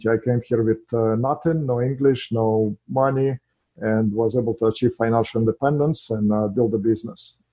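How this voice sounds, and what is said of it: Russian accent. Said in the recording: “as you can hear from my accent, first of all, I'm not from here. I'm an immigrant in this country from Russia”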